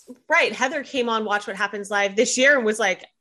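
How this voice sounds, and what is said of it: Usual voice. Nothing is said of it.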